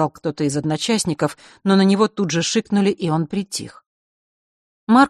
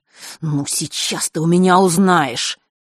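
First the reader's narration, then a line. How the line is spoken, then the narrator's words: Menacing, through teeth. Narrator (Russian): зловеще процедил он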